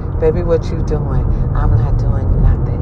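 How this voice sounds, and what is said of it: Whispered, barely-spoken soft voice. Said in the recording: “at home, baby, I want to barely speak. I want to whisper. I want to do like Lil Jon... let me whisper... Whisper.”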